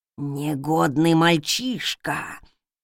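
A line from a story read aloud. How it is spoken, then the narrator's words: Furious creaking voice. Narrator (Russian): В ярости проскрипел призрак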